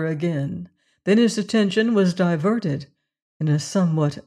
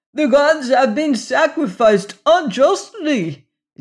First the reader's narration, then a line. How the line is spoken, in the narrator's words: yelled the people